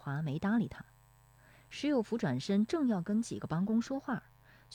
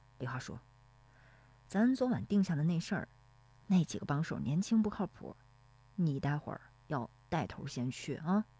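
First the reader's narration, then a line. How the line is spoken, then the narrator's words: Low voice. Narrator (Chinese): 石有福低声说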